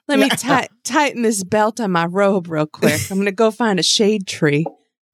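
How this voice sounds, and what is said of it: Put-on accent. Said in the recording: “I don't even know what accent I'm trying to do right now.”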